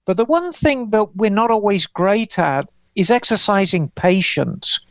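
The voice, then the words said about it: English accent. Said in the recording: “I've spent more of my adult life in America than I have in England. The only thing that's left for me is the accent.”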